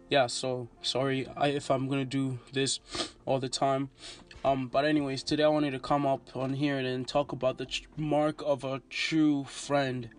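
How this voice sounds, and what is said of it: Congested voice, sounds like a cold. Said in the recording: “I have a cold.”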